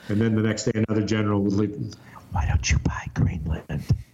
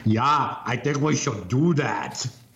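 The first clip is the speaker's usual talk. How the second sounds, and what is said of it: Imitates another person's voice. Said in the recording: “in her best, impersonation of Arnold Schwarzenegger”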